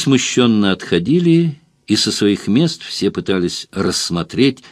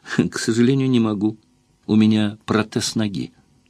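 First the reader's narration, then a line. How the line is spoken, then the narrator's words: Gentle, smiling. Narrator (Russian): Ула … лучезарно улыбалась им всем и ласково говорила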